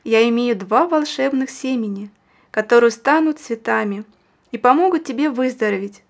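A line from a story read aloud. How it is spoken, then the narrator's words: Plain. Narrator (Russian): сказала она мальчику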